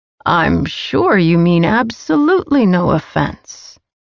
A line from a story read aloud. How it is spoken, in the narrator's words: he purred